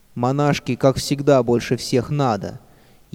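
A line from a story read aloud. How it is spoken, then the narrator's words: Mocking girls' giggling. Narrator (Russian): ехидно подсмеивались девочки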